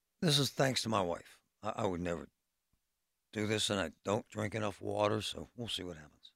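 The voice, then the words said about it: Strained, hoarse voice. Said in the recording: “as you can hear by my voice, I'm struggling with my voice lately ... you wake up and you can barely talk”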